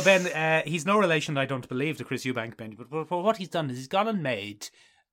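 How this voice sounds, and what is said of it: Usual voice. Nothing is said of it.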